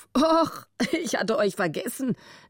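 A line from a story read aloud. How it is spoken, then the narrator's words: Amused laughing. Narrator (German): lachte er, halb grinsend vor Vergnügen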